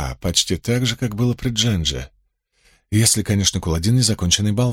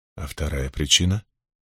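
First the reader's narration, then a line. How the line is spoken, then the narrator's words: Quiet question. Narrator (Russian): тихо спросил Лан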